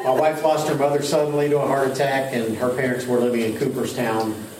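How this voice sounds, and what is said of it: Rural Southern US accent. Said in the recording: “I can hear that. ... I talk like a hillbilly.”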